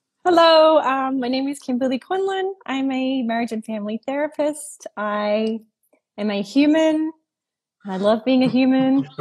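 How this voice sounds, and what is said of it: Non-Californian accent. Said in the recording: “my accent is not Californian.”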